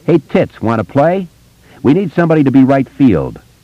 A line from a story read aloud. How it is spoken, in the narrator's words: a 6th grader named Peter Gordon ... yelled